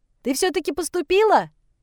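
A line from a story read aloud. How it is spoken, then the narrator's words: Shouted out. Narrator (Russian): выкрикнула с места Озерова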